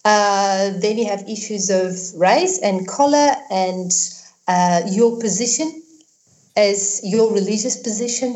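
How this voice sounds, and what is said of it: South African accent. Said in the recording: “I got a South African accent because I live there, but I'm not South African as such”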